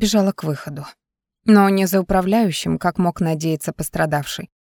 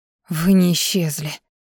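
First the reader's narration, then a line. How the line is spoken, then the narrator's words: Relieved exhale. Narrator (Russian): с облегчением выдохнула я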